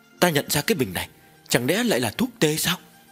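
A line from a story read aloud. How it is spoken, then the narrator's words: Trembling voice. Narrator (Vietnamese): Dư thái y run rẩy nói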